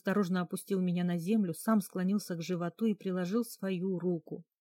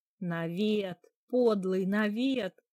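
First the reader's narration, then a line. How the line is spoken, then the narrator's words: Loud laughter. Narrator (Russian): хохотала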